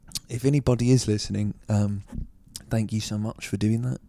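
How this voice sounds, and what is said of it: Soft ASMR-style voice. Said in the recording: “This is my ASMR voice.”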